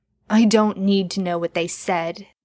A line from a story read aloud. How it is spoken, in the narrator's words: Jensen replied